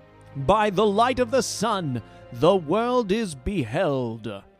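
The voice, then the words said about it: Deliberately poor character voice impression. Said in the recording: “my terrible attempt at an impression.”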